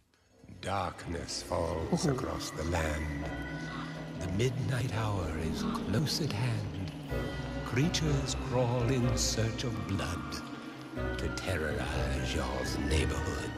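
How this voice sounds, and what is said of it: Vincent Price Halloween voice impression. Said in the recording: “legendary Halloween voice ... Vincent Price. ... great impression”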